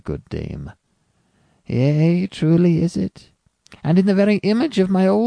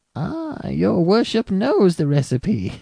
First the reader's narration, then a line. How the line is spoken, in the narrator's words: cried the old lady, cackling aloud